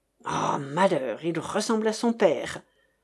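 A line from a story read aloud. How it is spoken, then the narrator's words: Angry growl. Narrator (French): gronda chérie Bibi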